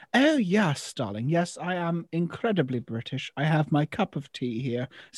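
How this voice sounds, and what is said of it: Exaggerated posh British accent. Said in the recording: “turn on the British accent ... we don't speak like that ... I am relatively posh in how I speak”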